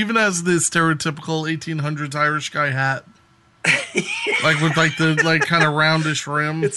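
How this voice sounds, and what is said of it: Usual voice. Nothing is said of it.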